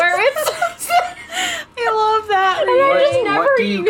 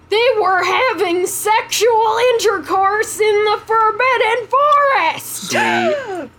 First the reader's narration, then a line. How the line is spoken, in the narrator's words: He yelled in a furious voice